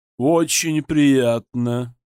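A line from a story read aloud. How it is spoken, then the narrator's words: Deep bass-like voice. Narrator (Russian): почти что басом провещала теща Прудникова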